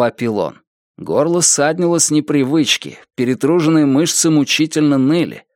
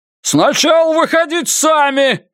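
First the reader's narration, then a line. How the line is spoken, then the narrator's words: Shouted reply. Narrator (Russian): прокричал в ответ Феннер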